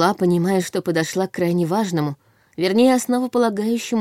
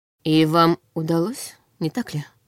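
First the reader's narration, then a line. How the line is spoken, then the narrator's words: Plain. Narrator (Russian): спросил Нортон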